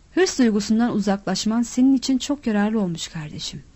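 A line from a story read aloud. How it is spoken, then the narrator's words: Plain. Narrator (Turkish): dedi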